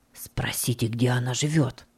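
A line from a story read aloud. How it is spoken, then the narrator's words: Whisper. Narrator (Russian): прошептал он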